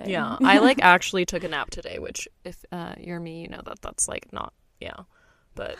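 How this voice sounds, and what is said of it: Sounds sick and unwell. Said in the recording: “maybe you can tell from my voice, I feel like death and dying”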